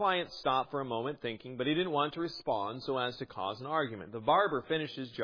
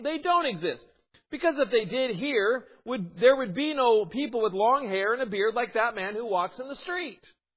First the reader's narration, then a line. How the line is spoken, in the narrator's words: exclaimed